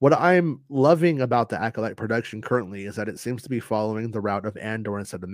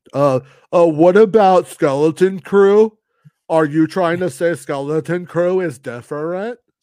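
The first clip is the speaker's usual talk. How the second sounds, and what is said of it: Imitates another person's voice. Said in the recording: “That's ... impersonation of me, by the way. It's pretty good.”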